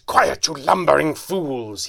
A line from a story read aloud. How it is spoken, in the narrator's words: he snarled at his henchmen